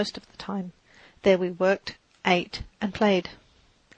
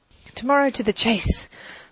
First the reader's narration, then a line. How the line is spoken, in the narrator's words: their good-night shout, as the circle of merry friends